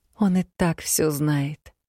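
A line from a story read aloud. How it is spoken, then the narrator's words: Interrupting with heavy sigh. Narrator (Russian): перебила, тяжело вздохнув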